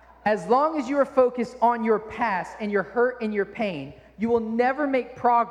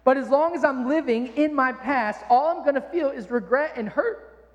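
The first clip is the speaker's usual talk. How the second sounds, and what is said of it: Voice cracks, choked up. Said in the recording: “I got choked up. ... Might have been puberty.”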